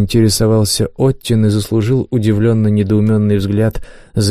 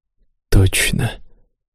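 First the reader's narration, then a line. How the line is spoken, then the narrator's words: Barely audible. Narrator (Russian): едва слышно проговорил Маран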